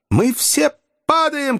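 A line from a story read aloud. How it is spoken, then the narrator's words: Shouted. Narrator (Russian): крикнул Фергюсон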